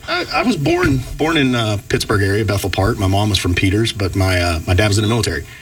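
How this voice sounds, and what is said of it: Southern Georgia accent. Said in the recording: “the Georgia accent”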